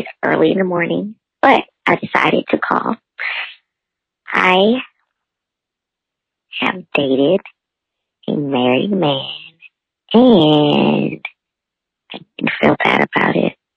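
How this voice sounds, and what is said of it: Groggy voice. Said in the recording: “my voice is groggy”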